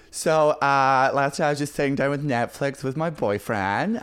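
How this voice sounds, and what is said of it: Put-on female American accent. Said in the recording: “I can only do female American accent ... So you're the American”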